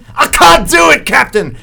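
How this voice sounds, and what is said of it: Impression of Star Trek's Scotty. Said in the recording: “don't do a Scotty impersonation? ... You're the only comedian in America who doesn't do a Scotty impersonation.”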